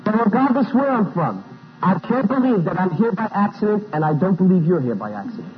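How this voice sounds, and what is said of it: Non-Southern, Italian-American accent. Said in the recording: “Howdy is Italian, and you can tell from my accent I'm not from Mississippi”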